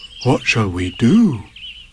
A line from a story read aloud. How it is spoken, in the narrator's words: said Pooh solemnly